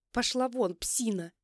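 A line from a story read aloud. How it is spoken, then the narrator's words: Irritated woman's voice. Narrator (Russian): раздраженно говорит женский голос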